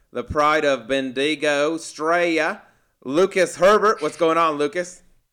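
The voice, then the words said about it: Bad put-on Australian accent. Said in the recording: “ridiculous Australian accent ... That might that might have been one of the worst ones I've heard this week ... I appreciate the attempt.”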